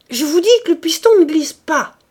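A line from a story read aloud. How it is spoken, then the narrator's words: Furious shouting. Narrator (French): criait furieusement le capitaine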